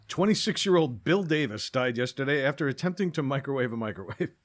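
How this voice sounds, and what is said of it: Newscaster voice. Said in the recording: “This is my newscaster voice again.”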